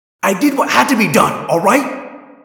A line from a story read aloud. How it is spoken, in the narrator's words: Tobias yelled in a blaze of sudden anger